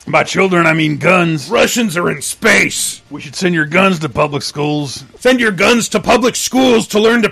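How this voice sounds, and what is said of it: Alex Jones impression. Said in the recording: “doing an Alex Jones impression?”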